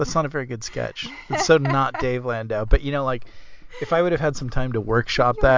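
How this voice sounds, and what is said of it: Usual voice. Nothing is said of it.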